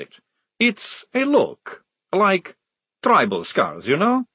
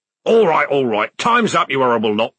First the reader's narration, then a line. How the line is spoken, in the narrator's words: barked Corporal Strappy